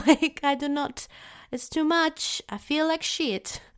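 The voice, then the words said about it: Brief shift into different accent. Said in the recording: “I don't know why my accent changed there.”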